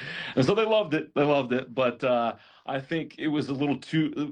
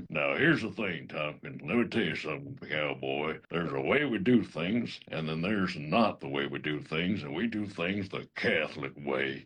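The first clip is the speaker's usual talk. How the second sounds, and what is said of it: Imitates an actor's cowboy voice. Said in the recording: “the first thing that popped in my mind was the actor Sam Elliott. So I gave my my best Sam Elliott impression.”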